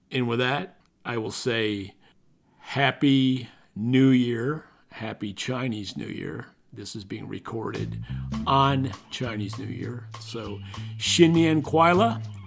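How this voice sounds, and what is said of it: Scratchy, worn-out voice. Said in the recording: “my scratchy voice ... my voice is a little shot”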